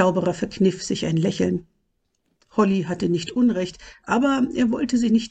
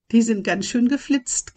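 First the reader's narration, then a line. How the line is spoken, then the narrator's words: Giggling. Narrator (German): kicherte Holly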